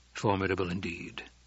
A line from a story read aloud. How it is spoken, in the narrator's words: the Duke murmured